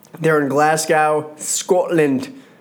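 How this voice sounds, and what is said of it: Poorly done Scottish accent. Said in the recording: “Terrible accent, I know. Terrible accent.”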